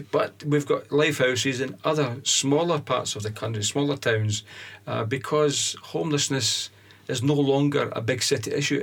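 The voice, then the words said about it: Scottish accent. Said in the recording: “accent's very very Scottish”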